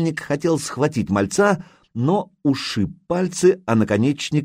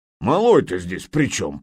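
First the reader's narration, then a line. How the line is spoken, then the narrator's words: Grumbling. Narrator (Russian): проворчал Нурман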